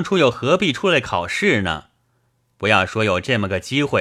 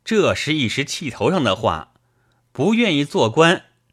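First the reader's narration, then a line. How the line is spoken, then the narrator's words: Loud. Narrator (Chinese): 高声道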